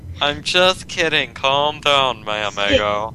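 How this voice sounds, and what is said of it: Put-on accent. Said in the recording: “That accent, though. ... Dude, I'm pro at accents”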